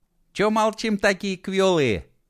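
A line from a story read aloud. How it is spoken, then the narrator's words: Cheerful question. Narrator (Russian): весело поинтересовалась она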